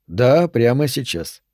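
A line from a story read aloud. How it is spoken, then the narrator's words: Calm confirmation. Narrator (Russian): спокойно подтвердил Аллен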